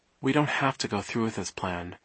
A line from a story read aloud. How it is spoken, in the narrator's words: Violet said quietly